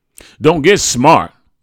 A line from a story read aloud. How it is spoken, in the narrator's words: my mother barked